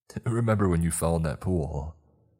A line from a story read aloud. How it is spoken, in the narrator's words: Tommy laughed